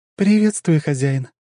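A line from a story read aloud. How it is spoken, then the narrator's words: Very sweet female voice. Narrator (Russian): произнесла она самым милым голосом, который я только слышал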